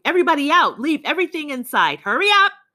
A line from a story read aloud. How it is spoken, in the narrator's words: shouting